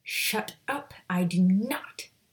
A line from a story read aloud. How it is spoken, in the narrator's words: Maya growled, her heart racing